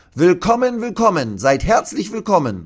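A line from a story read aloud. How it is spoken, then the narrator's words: Calling. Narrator (German): ruft sie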